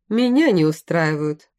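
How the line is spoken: Short chuckle. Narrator (Russian): хохотнул

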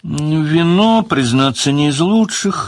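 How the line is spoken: Sad. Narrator (Russian): грустно сказал Леверлин

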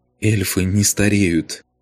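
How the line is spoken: Tearful, smiling. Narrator (Russian): Сквозь слезы улыбнулась Алена

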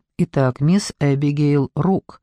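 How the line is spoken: Calm. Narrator (Russian): спокойно начал он

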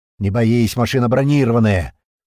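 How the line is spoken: Angry shout. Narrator (Russian): который раз зло крикнул Пьер

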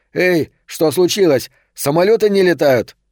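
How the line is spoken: Desperate shout. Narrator (Russian): в отчаянии прокричал

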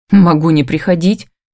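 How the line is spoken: Irritated grumbling. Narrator (Russian): бурчу раздраженно

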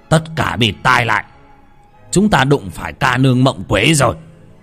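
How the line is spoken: Sudden shout. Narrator (Vietnamese): bất giác ông Út ống quát lên

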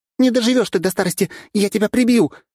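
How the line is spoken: Shouted angrily. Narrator (Russian): выкрикнула золотая блондинка

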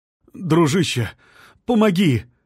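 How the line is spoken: Pleading. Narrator (Russian): взмолился он

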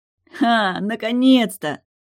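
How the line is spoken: Laughing. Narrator (Russian): Засмеялся он

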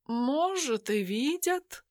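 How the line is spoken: Philosophical tone. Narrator (Russian): философским тоном произнес он

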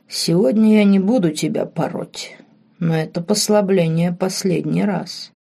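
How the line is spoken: Purring into ear. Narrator (Russian): промурлыкал герцог на ухо

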